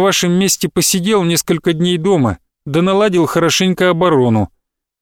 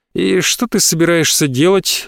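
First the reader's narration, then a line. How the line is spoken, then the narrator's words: Lazy question. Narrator (Russian): лениво спросил Адалиус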